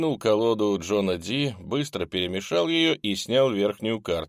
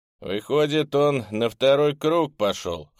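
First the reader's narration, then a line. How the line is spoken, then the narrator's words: Wry snort. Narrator (Russian): хмыкнул Кайл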